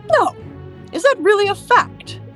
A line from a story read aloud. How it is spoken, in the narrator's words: exclaimed Mr